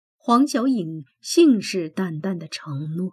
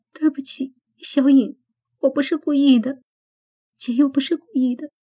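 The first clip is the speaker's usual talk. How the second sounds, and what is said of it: Quiet, choked, sobbing voice. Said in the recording (Chinese): “小声的哽咽”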